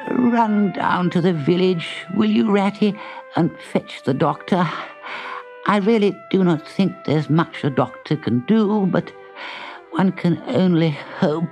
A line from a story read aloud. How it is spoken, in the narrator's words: he called out to Ratty in a feeble voice